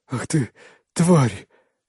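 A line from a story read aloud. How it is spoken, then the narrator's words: Wheezing hoarsely. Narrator (Russian): хрипит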